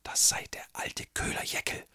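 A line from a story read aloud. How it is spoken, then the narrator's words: Innkeeper's whisper. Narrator (German): flüsterte die Wirtin den Gästen zu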